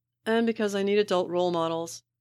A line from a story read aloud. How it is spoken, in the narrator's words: Neg yells from the couch on the other side of the half wall